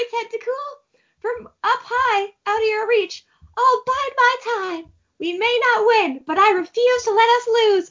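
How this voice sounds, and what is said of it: A character voice. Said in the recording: “doing that voice for her in English”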